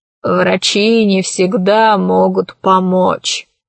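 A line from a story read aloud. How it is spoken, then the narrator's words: Sigh. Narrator (Russian): вздохнул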